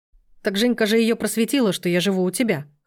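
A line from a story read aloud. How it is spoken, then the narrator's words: Snorting. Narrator (Russian): хмыкнул Сергей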